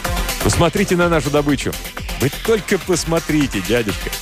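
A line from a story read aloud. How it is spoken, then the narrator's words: Breathless laughter. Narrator (Russian): Он смеялся, задыхаясь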